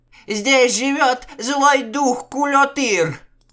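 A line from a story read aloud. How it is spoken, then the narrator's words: Shrieking. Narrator (Russian): взвизгнула Акыс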